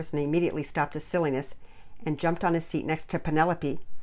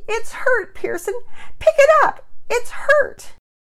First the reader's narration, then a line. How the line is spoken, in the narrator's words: cried Penelope